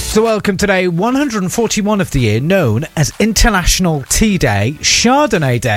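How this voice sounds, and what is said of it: Usual voice. Nothing is said of it.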